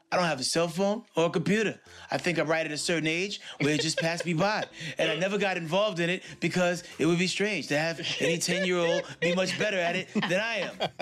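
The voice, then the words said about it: Christopher Walken impression. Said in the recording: “That is an epic Christopher Walken. You're Christopher Walken. Your Christopher Walken is up there with Porsche's English accent.”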